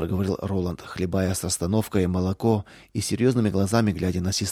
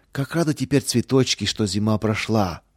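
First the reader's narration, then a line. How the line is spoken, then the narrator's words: Joyful echoing. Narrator (Russian): радостно вторила ему Лидия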